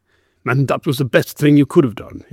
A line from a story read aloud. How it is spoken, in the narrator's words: he growled